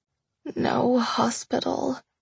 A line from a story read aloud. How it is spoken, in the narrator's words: I groaned into the palm of his hand